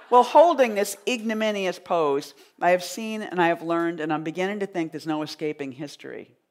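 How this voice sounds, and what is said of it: Boston accent. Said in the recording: “People have always laughed at my Boston accent”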